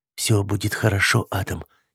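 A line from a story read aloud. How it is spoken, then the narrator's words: Quiet female voice. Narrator (Russian): негромко сказала она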